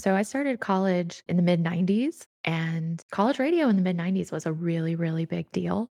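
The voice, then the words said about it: Polished radio DJ voice. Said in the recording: “where did that voice come from? Because that's a radio voice.”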